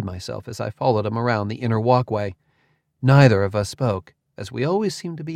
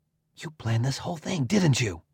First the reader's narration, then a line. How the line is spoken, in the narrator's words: whispered